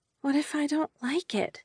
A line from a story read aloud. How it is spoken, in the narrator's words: she whispered